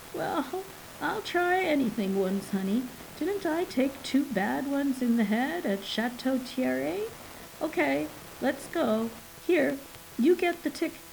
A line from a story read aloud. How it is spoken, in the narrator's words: The old man responded with a chuckle and said, though a little hesitantly